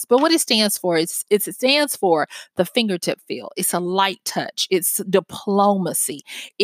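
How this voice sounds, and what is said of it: Southern accent. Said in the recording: “this Southern accent”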